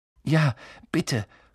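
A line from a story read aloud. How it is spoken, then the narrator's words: Gasping. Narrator (German): keuchte Harry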